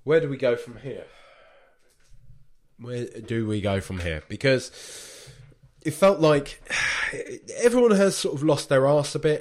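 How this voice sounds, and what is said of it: Congested voice with a cold. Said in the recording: “when I've got a cold,”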